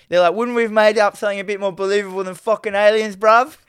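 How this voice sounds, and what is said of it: Put-on street accent, badly done. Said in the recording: “I'm starting to do these accents... I'm so shit at them... The most ghetto accents... My accentness is terrible”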